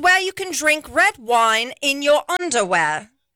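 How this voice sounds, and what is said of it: Put-on British-Australian accent. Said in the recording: “am I Australian or am I British?... You're British... I'll have a half Australian, half British accent... That was so good”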